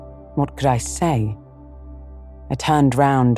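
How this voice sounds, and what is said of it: Usual voice. Nothing is said of it.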